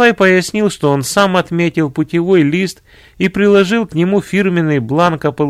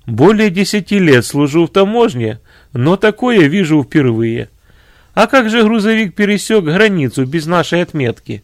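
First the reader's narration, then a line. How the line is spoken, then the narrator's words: After laughter. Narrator (Russian): Отсмеявшись, он сказал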